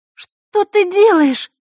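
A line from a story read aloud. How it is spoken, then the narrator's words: Astonished girl's exclamation. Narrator (Russian): изумленно воскликнула девочка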